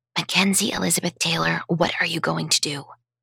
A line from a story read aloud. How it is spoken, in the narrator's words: She sounded more like my mother than my offspring when she mumbled